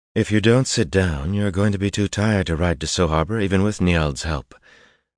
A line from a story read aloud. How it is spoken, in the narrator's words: Berylaine said, sounding faintly amused